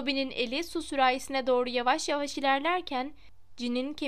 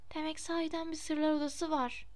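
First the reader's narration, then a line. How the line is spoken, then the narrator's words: Whispered. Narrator (Turkish): diye fısıldadı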